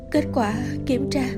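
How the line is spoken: Tearful trembling question. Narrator (Vietnamese): Lệ ngấn nơi khóe mi bỗng nhiên run rẩy hỏi

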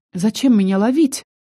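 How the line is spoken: Frightened babbling. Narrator (Russian): испуганно пролепетала я

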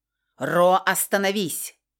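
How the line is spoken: Shout. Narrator (Russian): прокричала красная

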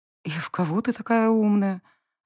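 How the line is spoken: Resigned sigh. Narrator (Russian): Обреченно вздохнула

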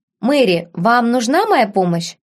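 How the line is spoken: Plain. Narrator (Russian): спросил Ярвуд

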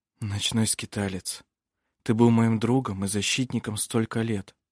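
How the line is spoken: Whisper. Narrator (Russian): шептал он

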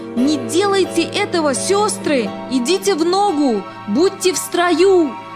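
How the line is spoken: Shouted. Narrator (Russian): Билл закричал

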